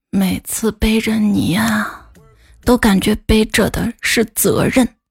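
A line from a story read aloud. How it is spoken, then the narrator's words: Tender, gentle. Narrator (Chinese): 老公温柔的跟我说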